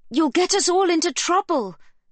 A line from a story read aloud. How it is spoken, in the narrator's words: a voice yells, very obviously now a girl's